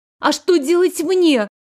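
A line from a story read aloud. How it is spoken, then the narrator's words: Near full-voice wail. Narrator (Russian): чуть ли не в полный голос взвыла я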